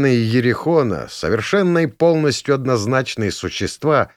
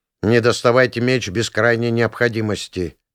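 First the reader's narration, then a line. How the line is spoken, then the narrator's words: Metallic-voiced guard's request. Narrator (Russian): металлическим голосом попросил один из охранников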